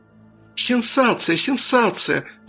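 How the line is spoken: Exclamation. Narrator (Russian): воскликнула Бритни

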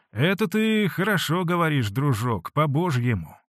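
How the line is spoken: Affectionate. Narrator (Russian): ласково сказал Потап Максимыч

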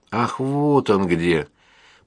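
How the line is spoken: Smiling drawl. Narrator (Russian): протянула Амалия, улыбаясь

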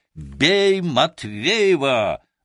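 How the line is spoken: Group shouting. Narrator (Russian): закричали они

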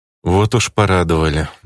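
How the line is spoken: Sighing. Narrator (Russian): вздохнул я

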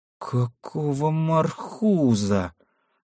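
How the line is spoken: Hurried mutter. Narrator (Russian): Только и успел пробормотать Олег

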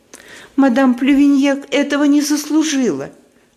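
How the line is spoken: Sobbing. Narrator (Russian): рыдает она

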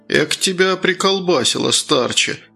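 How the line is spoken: Sighing. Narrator (Russian): вздохнул Круглов

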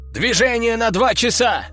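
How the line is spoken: Sentry's sudden shout. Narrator (Russian): вдруг выкрикнул часовой

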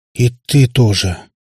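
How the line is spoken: Sighing. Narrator (Russian): вздохнул отшельник

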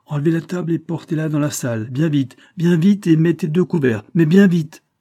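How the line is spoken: Priest shouting. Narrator (French): cria l'abbé

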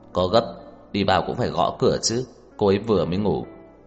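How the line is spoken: Cold. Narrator (Vietnamese): Tưởng Thiên Lỗi ... lạnh lùng nói

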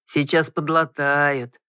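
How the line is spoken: Gentle male drawl. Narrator (Russian): ласково протянул мужчина

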